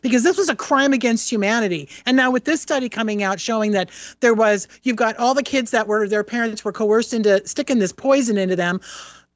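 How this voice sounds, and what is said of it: Angry, agitated voice. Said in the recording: “if you can tell from my voice, I'm still pissed about this”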